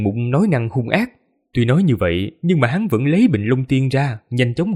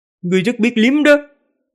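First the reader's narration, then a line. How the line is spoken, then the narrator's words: Anguished cry. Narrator (Vietnamese): Long Kỳ Lân kêu lên thảm thiết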